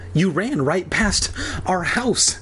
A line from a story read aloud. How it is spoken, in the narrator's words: she said breathlessly